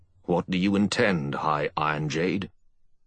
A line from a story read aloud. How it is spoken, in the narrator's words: Lorimar said sternly